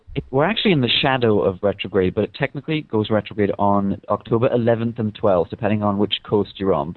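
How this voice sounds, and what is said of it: Strong British accent. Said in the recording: “We miss your accent. ... So I put it on very strongly for you. ... It's not very British of me”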